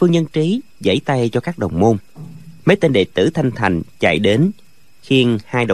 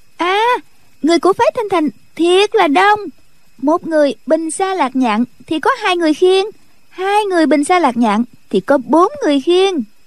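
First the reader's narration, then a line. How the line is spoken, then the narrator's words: Young girl's sudden cry. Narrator (Vietnamese): Tiểu cô nương bỗng nhiên la lên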